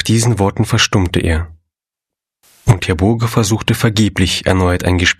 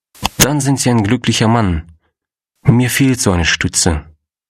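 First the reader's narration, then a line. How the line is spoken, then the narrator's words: Sighed. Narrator (German): seufzte Herr Wenzel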